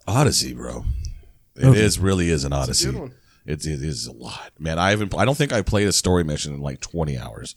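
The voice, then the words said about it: Rough, raspy voice. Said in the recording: “You can tell from my voice, my sexy voice ... Yelling at a bunch of people”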